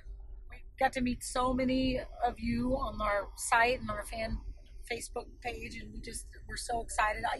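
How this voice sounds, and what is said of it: Hoarse, strained voice. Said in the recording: “I'm hoarse. I sang a little loud in the sandbar last night, so now ... does not have a voice.”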